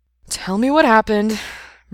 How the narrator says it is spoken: Brendan sighed

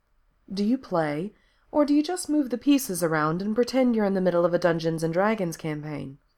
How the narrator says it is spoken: Becky laughs

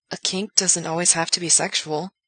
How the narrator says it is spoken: Gerard says, though his voice is noticeably unsteady

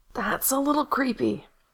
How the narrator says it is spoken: Gerard rasped

